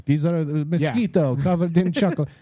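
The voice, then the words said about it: Put-on Indian accent. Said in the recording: “a good Chinese accent... No, I was Indian.”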